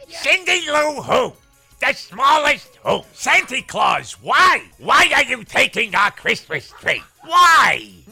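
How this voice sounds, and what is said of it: Rough Gilbert Gottfried impression. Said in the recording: “Out of all of his impersonations, that's the least annoying. Like, that is sort of in the vicinity of doing Gilbert ... He doesn't know how to do the delivery for it either.”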